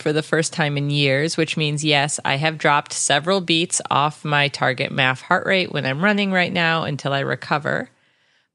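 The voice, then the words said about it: Sick, cold-affected voice. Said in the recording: “apologize for my voice. I have a cold”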